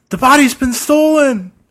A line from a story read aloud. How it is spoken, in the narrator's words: somebody yell